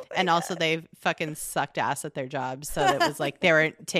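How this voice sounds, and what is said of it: Usual voice. Nothing is said of it.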